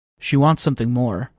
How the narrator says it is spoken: I said

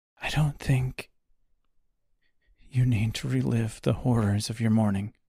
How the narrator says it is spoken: Beatrice said softly, her voice a small, hushed whisper

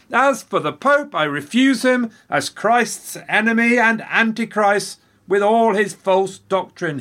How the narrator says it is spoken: he yelled

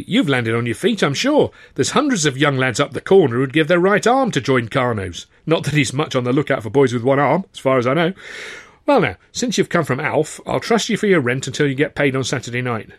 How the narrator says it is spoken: she said cheerfully

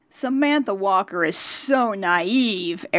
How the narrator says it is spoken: Eric Raymond sneers to Stormer

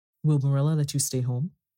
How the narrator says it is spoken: she asked

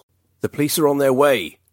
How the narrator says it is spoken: Daniel bellowed, hoping his threat was enough to perturb the maniac

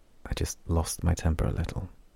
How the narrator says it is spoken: Lon muttered

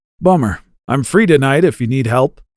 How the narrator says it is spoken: he said

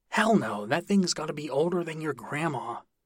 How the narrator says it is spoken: Damien half shouted, half whispered

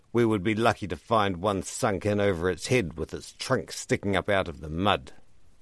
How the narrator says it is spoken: Ribbreaker snorted

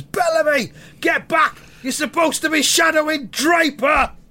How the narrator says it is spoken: Roy shouts in fucking balls at one of his players

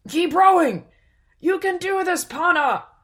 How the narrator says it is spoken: roared their father

